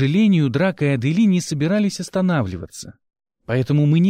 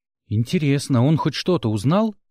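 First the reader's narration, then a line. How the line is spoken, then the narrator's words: Plain. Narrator (Russian): спросил Гил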